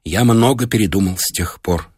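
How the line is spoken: Trembling voice. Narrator (Russian): сказал Колесакин дрожащим голосом

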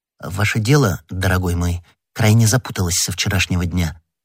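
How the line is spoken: Plain. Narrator (Russian): сказал комиссар

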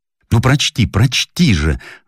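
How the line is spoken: Eager exclamation. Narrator (Russian): воскликнул неповоротливый гость

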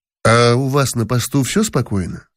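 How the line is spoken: Plain. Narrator (Russian): спросил я

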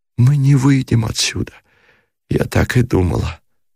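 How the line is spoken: Hopeless whisper. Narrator (Russian): сказала она шепотом, как бы без надежды на спасение

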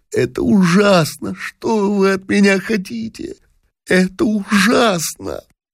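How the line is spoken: Sobbing, sighing, repeating. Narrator (Russian): вздыхая, всхлипывая и повторяя

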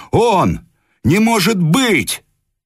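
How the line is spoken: Crowd shouting. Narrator (Russian): Люди кричали

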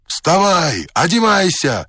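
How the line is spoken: Several voices shouting. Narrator (Russian): кричало несколько голосов

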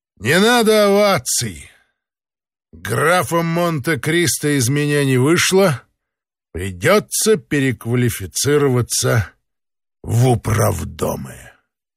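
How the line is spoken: Loud. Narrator (Russian): Никому не обращаясь, он громко сказал

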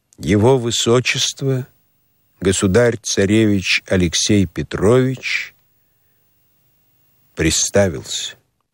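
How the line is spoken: Solemn announcement. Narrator (Russian): объявил торжественно

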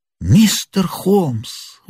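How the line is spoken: Exclaimed. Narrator (Russian): воскликнул Мэриветтер

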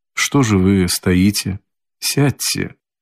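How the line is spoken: Suddenly quiet and tender. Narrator (Russian): проговорил он вдруг переменившимся, тихим и ласковым голосом

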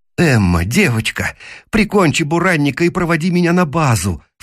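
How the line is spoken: Pleading. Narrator (Russian): взмолился я

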